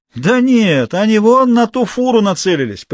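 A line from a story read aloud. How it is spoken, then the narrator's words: Cheered-up voice. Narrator (Russian): повеселевшим голосом сказал из-за спины Марии Колян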